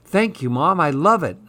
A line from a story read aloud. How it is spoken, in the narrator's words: Nalaya cried